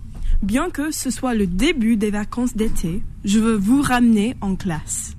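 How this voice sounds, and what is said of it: Speaks French with an accent. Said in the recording (French): “elle est craquante hein, avec son accent”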